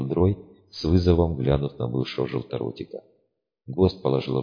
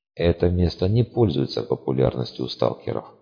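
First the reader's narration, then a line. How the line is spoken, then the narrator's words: Quiet. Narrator (Russian): негромко произнес Левка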